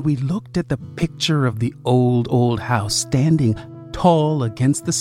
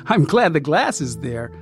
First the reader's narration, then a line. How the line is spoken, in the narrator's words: I said, giggling